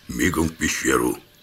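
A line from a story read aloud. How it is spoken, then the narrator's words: Quiet command. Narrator (Russian): тихо скомандовал я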